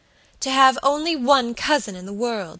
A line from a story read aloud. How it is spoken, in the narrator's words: she cried passionately